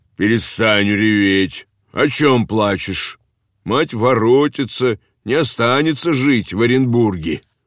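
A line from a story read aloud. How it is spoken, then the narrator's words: Angry shout. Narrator (Russian): дедушка сердито крикнул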